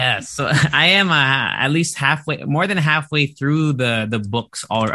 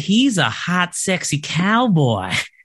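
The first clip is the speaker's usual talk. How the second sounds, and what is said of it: Put-on Southern accent. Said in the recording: “said in her southern accent ... Did you have to do a southern?”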